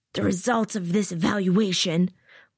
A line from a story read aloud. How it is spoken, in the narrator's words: Laban shouts over the noise of the water